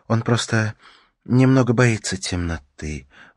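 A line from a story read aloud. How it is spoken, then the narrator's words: Sighing. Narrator (Russian): вздохнула Ракель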